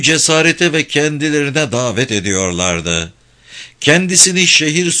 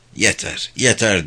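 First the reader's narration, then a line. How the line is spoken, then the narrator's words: Muttered to himself. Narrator (Turkish): diye mırıldandı kendi kendine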